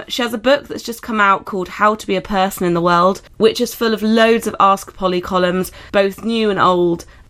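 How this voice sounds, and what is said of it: Croaky voice with a cold. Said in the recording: “Sorry about my voice, I've got a bit of a cold, ... shouldn't sound so croaky.”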